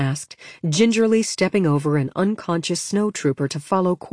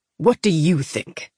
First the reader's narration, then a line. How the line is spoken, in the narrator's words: He replied, speak gruffly into the transmitter